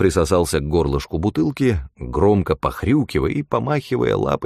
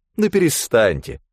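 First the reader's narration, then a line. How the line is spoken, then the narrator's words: Wet spraying snort. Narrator (Russian): Фыркнул так, что тысячи мелких капелек вылетели из его носа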